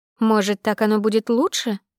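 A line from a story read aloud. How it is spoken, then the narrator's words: Plain question. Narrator (Russian): спросила Света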